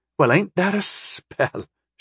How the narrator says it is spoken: She asked, laughing sweetly

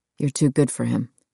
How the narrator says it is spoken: he said it quietly

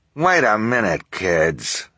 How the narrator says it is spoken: Esme snarled

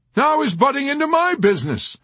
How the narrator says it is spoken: Colonel Shashkov cried

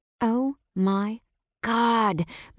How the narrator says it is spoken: Mia drawled out every word

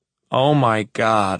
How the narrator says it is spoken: I moan

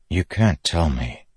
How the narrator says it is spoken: Kaladin said softly

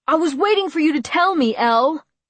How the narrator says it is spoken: he yelled

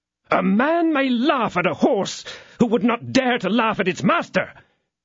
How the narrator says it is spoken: cried the disciple of Treville with fury

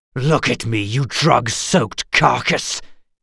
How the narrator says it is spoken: hissed Geralt

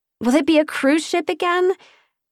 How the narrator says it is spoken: Padma asked nervously

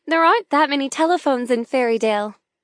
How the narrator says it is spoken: chuckle

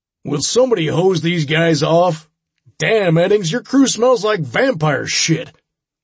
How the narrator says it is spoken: Sam bellowed

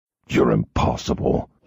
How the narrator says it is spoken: he growled

